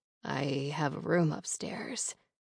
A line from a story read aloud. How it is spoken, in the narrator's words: he breaks the kiss and murmurs against my lips